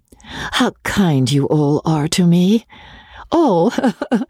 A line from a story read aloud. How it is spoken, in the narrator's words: she added with a laugh